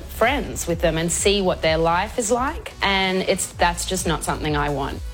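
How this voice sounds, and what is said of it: Female voice with Australian accent. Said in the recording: “It was an Aussie accent, a female.”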